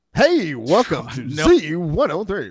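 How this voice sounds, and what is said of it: Exaggerated radio announcer voice. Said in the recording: “that really weird Troy McClure radio voice”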